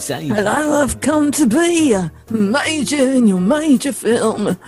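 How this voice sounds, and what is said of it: Imitates another person's voice. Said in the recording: “your David Bowie impression”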